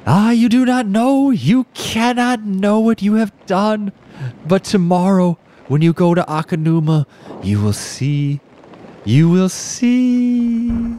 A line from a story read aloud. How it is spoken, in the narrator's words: she exclaimed